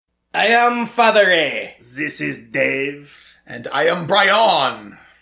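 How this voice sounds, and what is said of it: Bad put-on French accent. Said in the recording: “in shitty French accent”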